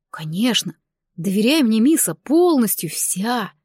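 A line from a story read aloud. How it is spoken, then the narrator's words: Purring. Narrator (Russian): Мурлыкнул он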